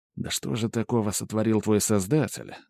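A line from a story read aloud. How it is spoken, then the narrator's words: Inner mutter. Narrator (Russian): мысленно пробормотал я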